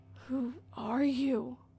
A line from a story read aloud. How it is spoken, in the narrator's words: Mike screamed, his voice decayed into nothing but a wisp